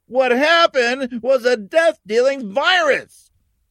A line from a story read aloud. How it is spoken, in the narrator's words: someone shouted